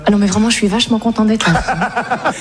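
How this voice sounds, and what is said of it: Put-on Parisian French accent. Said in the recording (French): “je parle un peu à la parisienne comme ça ... Pas mal, tu le fais bien, hein.”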